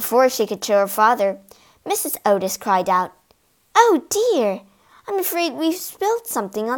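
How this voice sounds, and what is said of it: Usual voice. Nothing is said of it.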